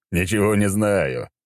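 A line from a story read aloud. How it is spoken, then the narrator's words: Chuckled reply. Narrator (Russian): хохотнул в ответ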